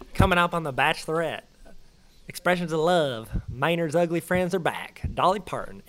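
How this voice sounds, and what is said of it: Imitates another person's voice. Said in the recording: “I'm going to give my shot at Hollier ... I'm not very good at impersonations ... anyone trying to impersonate Jared is instantly funny”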